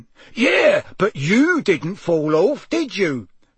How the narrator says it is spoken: roared Amos genially

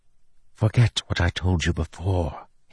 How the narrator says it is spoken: he whispered

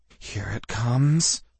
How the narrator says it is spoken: I whispered fervently

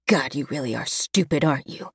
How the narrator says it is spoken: He hisses

